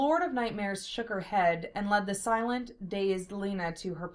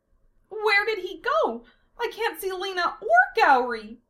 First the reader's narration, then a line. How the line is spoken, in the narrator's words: Amelia cried out